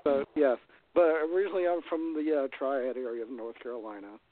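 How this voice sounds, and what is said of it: Southern US accent. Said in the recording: “I like your accent. ... as you can tell, I'm from the South. ... my accent has gotten even more worse, even more Southern”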